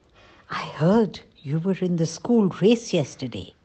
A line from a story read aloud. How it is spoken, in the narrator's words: A colleague whispered to me